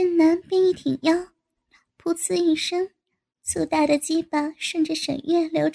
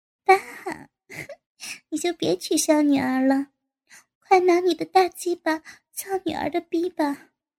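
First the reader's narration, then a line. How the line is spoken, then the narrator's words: Laughing. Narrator (Chinese): 沈月笑着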